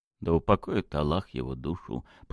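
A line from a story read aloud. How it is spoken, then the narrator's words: Whispered. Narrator (Russian): прошептал Ратмир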